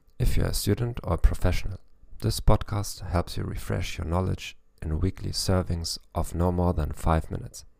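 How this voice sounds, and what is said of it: German-accented English. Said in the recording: “with a German accent... I'm not an expert in English.”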